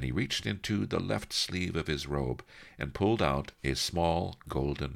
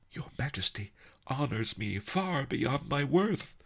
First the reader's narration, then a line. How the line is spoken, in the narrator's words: cried Jade Pearl